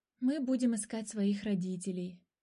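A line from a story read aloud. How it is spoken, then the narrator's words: Sigh. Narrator (Russian): вздохнул Котя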